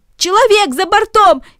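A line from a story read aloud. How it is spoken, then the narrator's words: Shouted by several. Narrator (Russian): кричали одни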